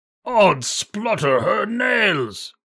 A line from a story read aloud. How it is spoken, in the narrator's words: cried the Welsh giant, who was ashamed to be outdone by such a little fellow as Jack